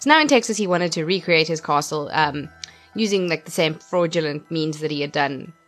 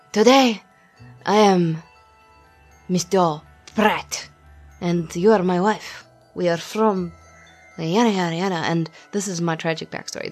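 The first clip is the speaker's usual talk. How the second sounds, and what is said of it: Made-up unidentifiable accent. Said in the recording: “don't know why I came up with that accent. I don't even know what that is”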